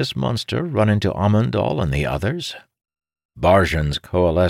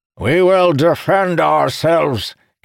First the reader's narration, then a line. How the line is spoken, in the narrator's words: Kalamir shouted